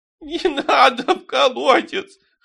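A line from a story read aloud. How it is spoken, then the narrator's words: Whining. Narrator (Russian): хныкал Терентий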